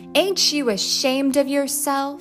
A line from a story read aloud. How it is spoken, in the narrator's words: a stringy woman called out